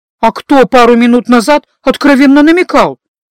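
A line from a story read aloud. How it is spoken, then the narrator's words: Offended sniffing. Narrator (Russian): Обиженно засопев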